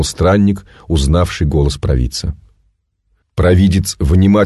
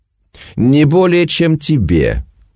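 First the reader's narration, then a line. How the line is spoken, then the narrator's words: Cheerful snapping seer. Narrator (Russian): весело грызнулся провидец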